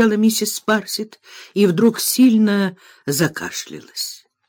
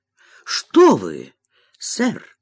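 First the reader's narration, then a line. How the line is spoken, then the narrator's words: Exclaiming. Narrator (Russian): воскликнула миссис Спарсит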